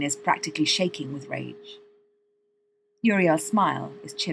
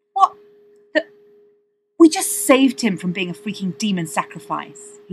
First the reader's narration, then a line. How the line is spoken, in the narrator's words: he says at last, furiously